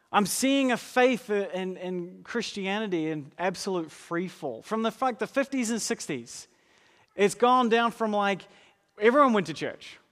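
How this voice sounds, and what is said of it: New Zealand accent. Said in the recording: “my country is New Zealand, not America. Pay no attention to the accent”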